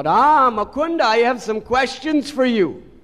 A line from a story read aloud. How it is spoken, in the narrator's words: Nimai called out